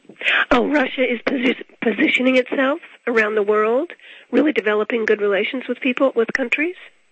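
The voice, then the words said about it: Strained, hoarse, fading voice. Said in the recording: “I'm losing my voice.”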